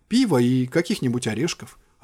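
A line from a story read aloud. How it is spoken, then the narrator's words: Plain. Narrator (Russian): ответил я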